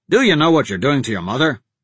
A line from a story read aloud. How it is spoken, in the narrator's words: snapped